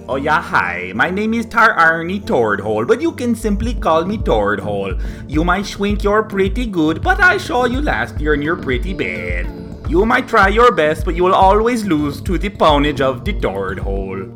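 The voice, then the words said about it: Nonsensical put-on character accent. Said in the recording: “That accent makes absolutely no sense.”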